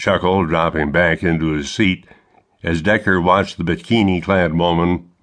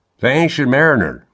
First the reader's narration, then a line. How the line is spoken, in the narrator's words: Martin chuckled